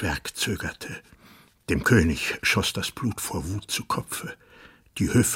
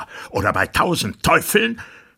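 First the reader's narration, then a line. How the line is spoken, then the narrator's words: Monster screaming. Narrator (German): schrie das Ungeheuer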